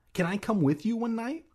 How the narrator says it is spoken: I asked eagerly

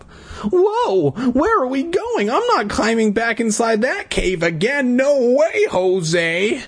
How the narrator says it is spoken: cried

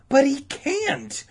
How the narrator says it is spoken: Todd sputtered in a high, shrill voice

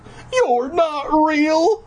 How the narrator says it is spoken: I cried

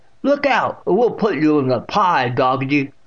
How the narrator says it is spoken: she exclaimed

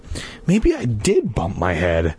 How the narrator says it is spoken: Hannah muttered

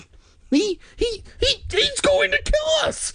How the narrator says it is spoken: Sari screamed

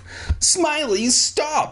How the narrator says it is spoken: I screamed

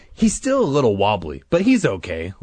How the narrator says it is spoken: Larry said cheerfully

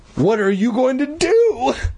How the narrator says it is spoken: Todd cried

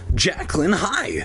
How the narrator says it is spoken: I gasped

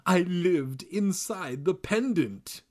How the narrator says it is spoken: she cried

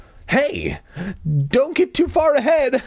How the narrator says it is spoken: I cried

